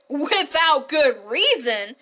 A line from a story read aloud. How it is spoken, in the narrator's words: cried